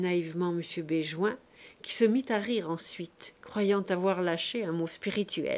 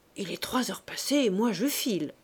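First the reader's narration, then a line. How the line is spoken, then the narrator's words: Murmur. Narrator (French): murmura M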